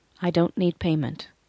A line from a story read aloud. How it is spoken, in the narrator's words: responded, keeping my voice even